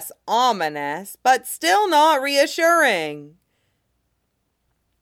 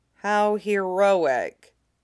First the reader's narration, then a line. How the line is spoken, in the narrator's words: Peerless Cucumber says dryly